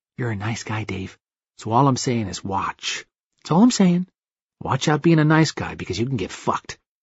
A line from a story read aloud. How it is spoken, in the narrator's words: Tyler leaned over, whispering